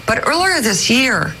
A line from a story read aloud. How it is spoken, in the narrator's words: Meadows cried